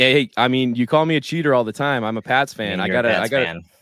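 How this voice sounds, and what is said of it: Usual voice. Nothing is said of it.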